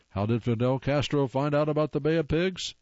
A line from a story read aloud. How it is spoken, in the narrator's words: Someone squealed